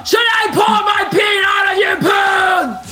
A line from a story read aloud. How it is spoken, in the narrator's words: Ash yelled